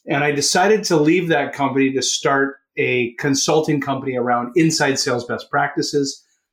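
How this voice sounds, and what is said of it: Canadian accent. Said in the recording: “If you can hear it from my accent, I am a Canuck.”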